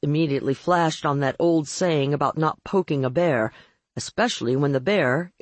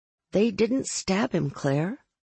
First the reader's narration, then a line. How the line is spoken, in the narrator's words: I said gently